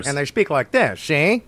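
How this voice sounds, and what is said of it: Funny old-time mobster gangster accent. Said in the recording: “actual like mob guys ... Oh, Jeff Hardy with a funny accent?”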